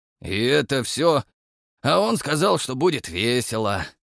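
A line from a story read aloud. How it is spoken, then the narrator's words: Scoffing grunt. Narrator (Russian): хмыкнул Абадон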